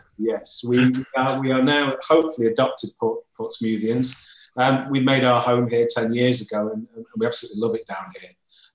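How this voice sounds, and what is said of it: Non-local English regional accent. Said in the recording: “I sense there was something not entirely Portsmouthian ... in that accent”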